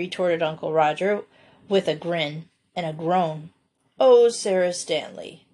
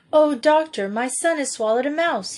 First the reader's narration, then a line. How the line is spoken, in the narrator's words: he cried